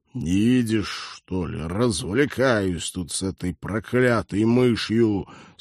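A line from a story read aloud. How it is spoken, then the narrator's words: Fierce growl. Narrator (Russian): свирепо рыкнул Станислав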